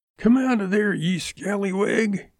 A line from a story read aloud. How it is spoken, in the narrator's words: he shouted